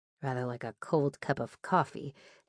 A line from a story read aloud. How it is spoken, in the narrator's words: Diane or Marion muttered